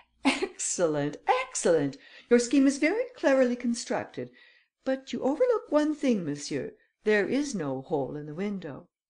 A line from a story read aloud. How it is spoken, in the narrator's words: The Count laughed and said